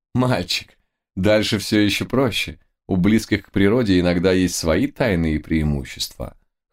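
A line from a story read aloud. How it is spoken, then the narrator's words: Amused snort. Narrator (Russian): хмыкнула лисичка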